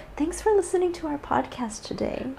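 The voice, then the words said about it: Soft, gentle speaking voice. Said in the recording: “there she goes. She's all soft.”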